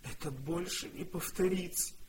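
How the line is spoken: Sobbing. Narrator (Russian): всхлипывала она

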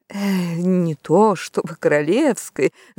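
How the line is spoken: Uncle mumbling. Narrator (Russian): забормотал дядя

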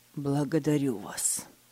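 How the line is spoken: Hoarse reply. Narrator (Russian): хрипло ответил Фридрих

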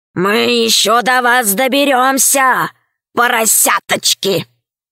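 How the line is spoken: Hoarse growling wolf. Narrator (Russian): рычали, Один из них хрипло сказал

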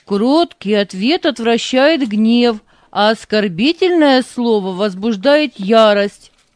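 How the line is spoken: Read aloud loudly. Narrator (Russian): громко прочитал Вова

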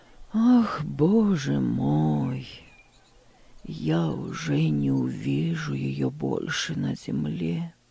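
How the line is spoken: Sad old man. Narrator (Russian): грустно проговорил дедушка

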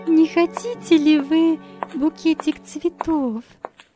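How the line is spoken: Timid apologetic question. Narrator (Russian): Робко спросила она, как бы извиняясь

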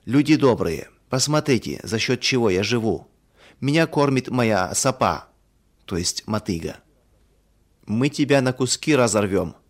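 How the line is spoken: Angry villagers shouting. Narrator (Russian): в гневе кричала одна половина сельчан

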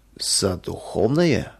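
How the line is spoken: Reproachful drawl. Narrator (Russian): с укором протянул Сафронов

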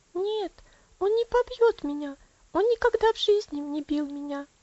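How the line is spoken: Quick answer. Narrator (Russian): быстро ответила Элси

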